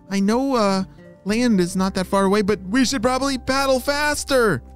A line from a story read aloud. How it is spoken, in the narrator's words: she shouted